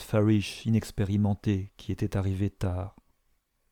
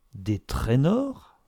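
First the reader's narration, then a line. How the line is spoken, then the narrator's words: Exclaimed. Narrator (French): s'écria Mrs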